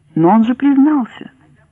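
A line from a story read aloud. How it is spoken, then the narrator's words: Tired. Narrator (Russian): устало сказал судья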